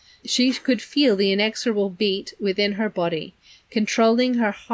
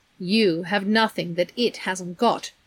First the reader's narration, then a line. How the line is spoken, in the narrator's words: Charles Wallace said coldly